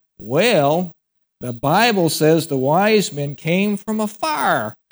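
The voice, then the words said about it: Heavy East Texas accent. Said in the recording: “in his heavy East Texas accent”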